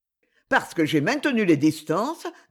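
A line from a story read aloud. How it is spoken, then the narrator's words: Cold. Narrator (French): dit-il froidement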